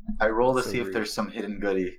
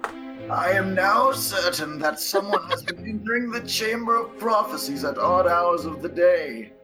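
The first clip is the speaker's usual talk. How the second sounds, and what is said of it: Old man voice. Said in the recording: “read it in an old man voice”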